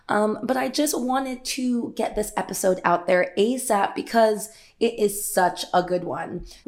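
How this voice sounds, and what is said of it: Raspy morning voice. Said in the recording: “I just woke up. That's why my voice probably sounds a little bit more raspy than it usually is.”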